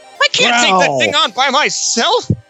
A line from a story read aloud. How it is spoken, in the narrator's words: she shrieked